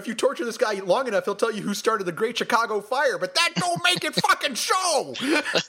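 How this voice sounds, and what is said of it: Imitates another person's voice. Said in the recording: “my Chris Penn impression”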